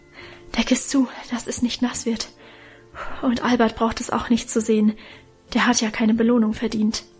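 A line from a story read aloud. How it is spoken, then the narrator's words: Breathless. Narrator (German): sagte er atemlos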